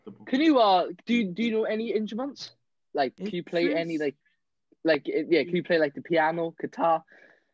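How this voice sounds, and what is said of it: Welsh accent. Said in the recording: “sorry about my accent... the Welsh accent”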